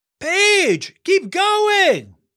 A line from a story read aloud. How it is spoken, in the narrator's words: yelled Elias